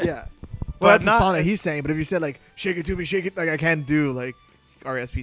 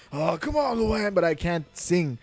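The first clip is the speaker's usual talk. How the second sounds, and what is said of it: Impression of Kirk Van Houten. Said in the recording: “my Kirk from Simpsons, like Kirk Van Houten, I can always do that.”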